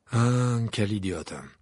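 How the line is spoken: Professor sighing. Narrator (French): soupira le professeur Chourave

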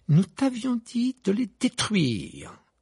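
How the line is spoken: Furious exclamation. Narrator (French): s'exclama Madame Wesley avec fureur

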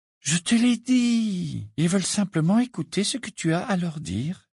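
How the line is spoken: Soothing. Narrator (French): répondit Hermione d'un ton apaisant

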